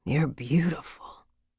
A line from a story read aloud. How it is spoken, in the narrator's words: he murmured